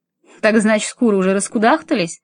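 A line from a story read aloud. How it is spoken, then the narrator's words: No longer laughing. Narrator (Russian): Он больше не смеялся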